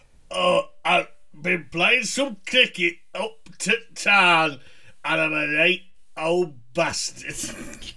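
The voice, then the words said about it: Yorkshire accent, imitates another person's voice. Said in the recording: “who the Yorkshiremen are ... genius of voice ... that is definitely your Parky impression ... Jeffrey Boycott”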